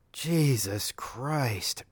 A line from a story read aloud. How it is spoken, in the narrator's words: Top gasped